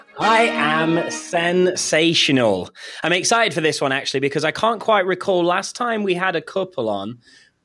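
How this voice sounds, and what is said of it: British accent. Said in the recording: “British accent co-host from the United Kingdom”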